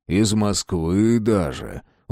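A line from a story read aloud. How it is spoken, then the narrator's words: Respectful, then low voice. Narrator (Russian): уважительно сказал и вполголоса уточнил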